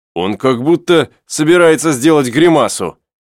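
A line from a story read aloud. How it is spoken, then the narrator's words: Shouting. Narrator (Russian): кричал Пенкроф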